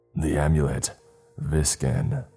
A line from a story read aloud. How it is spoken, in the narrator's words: he croaked in a harsh voice